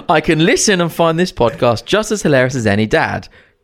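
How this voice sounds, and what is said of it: Put-on polite telephone voice. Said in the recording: “put on your telephone voice”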